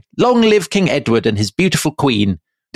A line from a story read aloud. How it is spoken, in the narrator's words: the people cried